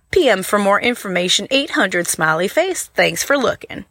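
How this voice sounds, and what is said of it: Attempted Southern US accent. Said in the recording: “Which southern state do you think that accent was there ... Good attempt, though. That was a good try.”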